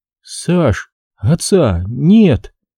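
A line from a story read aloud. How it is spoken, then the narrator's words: Trembling voice. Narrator (Russian): дрожащим голосом сообщила Зинаида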